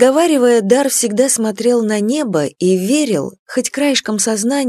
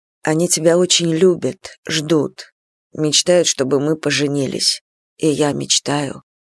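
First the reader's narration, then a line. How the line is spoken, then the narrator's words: Quiet. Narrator (Russian): добавлял тихо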